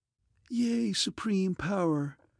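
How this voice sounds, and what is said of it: Mocking, clear feminine voice. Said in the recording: “That title was uttered mockingly in a clear feminine voice.”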